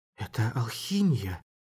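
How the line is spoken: Anxious voice. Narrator (Russian): сказала она встревоженным голосом

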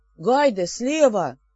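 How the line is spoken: Sudden alarmed howl. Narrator (Russian): Вдруг взвыл из-за ограды встревоженной Шейри

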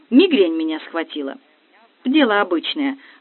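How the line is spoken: Calm usher explaining. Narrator (Russian): спокойно рассказывала капельдинерша

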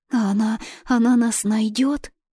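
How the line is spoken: Frightened trembling child's whisper. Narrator (Russian): испуганно зашептал Веночка, и голосок его дрожал от волнения

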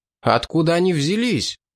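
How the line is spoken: Astonished exclamation. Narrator (Russian): изумленно воскликнул шотландец

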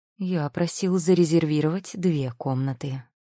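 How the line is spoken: Even, level tone. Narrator (Russian): ровным тоном произнес он

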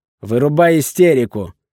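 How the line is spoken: Growled. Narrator (Russian): прорычал я

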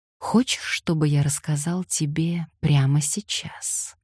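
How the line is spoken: Quiet chuckle. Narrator (Russian): тихо усмехнулся

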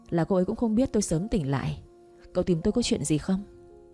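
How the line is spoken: Laughing. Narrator (Vietnamese): Tôi bật cười

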